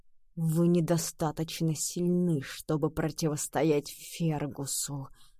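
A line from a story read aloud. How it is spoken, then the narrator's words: Rasped. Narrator (Russian): прохрипел сэр Кормак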